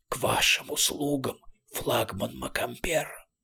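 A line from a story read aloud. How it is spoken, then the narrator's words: Strangled hiss. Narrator (Russian): Сдавленный голос прошипел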